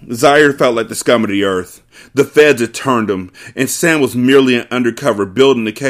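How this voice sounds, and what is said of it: Usual voice. Nothing is said of it.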